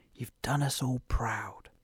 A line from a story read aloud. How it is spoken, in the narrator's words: his parents whispered